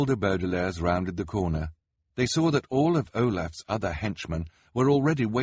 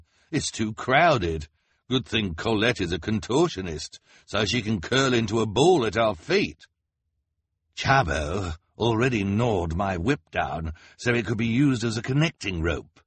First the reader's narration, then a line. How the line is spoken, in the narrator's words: Count Olaf said